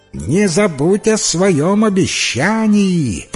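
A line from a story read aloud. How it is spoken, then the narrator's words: Shouted after, frog. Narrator (Russian): прокричала ей вслед лягушка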